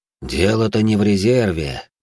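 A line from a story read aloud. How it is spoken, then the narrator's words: Sigh. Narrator (Russian): вздохнул Владимир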